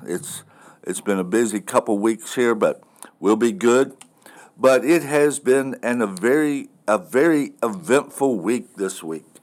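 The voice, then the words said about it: Slightly hoarse voice. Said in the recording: “I may sound a little bit hoarse.”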